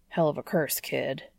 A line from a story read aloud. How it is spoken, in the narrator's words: he grumbles to the Warlock